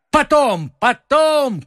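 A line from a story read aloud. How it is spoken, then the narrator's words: Shouted. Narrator (Russian): крикнул ему Д'Артаньян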